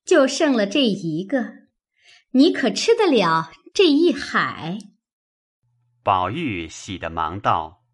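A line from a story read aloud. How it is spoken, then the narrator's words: Delighted, laughing. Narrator (Chinese): 妙玉十分欢喜，笑道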